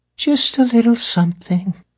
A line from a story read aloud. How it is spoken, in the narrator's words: Persephone said sadly, or perhaps thoughtfully